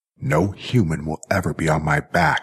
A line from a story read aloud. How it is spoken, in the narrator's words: snarled Jackie